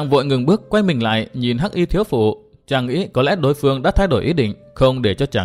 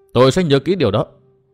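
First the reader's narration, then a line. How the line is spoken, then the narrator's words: Raised voice reply. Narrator (Vietnamese): Tư Mã Minh cao giọng đáp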